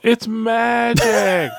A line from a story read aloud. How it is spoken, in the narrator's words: yell